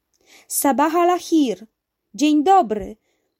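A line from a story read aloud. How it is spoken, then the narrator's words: Uncle calling in Arabic. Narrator (Polish): zawołał po arabsku wuj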